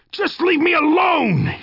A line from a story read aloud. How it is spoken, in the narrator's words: he screamed